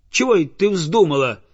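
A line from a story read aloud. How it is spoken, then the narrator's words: Peasant shouting. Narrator (Russian): закричал крестьянин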